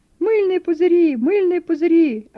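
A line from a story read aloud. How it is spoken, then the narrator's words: Excited overlapping shouts. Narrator (Russian): Один громче другого кричали они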